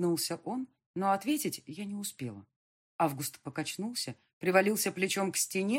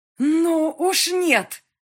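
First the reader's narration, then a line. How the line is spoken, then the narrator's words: Loud and angry. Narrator (Russian): сказала громко и зло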